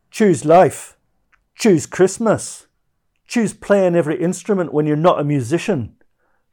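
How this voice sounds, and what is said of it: Inconsistent put-on Scottish accent. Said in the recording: “in my inconsistent Scottish accent ... Scottish accent”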